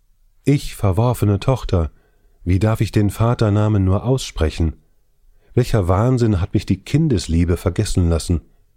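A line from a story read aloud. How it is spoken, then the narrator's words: Piercing wail. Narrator (German): rief sie mit durchdringendem Wehelaut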